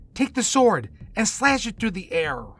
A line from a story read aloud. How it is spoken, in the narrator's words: Jonah called out